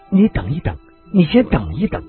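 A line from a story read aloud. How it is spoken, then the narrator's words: Breathless gasping. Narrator (Chinese): 女子喘息着，呼吸好像随时都可能停顿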